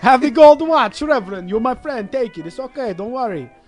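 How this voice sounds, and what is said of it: Exaggerated put-on Russian accent. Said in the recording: “Crazy accent. ... I'm the king of accents. ... I don't know if that was Russian.”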